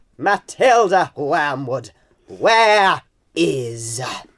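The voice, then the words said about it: Loud booming Miss Trunchbull voice. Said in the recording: “you do a particularly good voice ... a little bit of sample of Miss Trunchbull without clearing all our eardrums”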